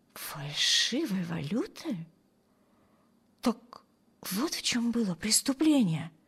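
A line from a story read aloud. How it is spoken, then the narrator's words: Muttered under breath. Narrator (Russian): пробормотала Эми себе под нос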